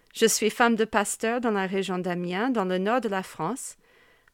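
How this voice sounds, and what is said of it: Strong American accent in French. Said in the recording (French): “mon accent bien américain, qui ne se perd pas même après plus de 20 ans vécu en France”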